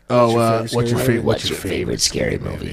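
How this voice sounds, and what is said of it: Scream Ghostface voice impression. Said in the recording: “how good of a fucking Scream voice I just did ... That was honestly really good.”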